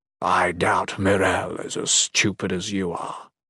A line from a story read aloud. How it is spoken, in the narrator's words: Caimus growled